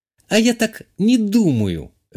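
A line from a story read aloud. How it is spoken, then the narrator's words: Said sharply. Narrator (Russian): резко сказала та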